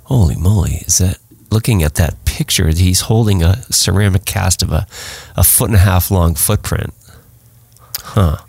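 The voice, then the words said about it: Congested, stuffy-sounding voice. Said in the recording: “excuse my voice. I'm suffering from a sinus infection.”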